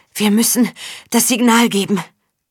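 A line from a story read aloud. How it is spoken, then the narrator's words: Woman panting. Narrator (German): keuchte sie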